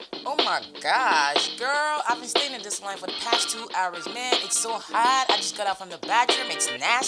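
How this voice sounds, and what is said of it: Put-on American accent. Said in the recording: “your American accent, not be fake”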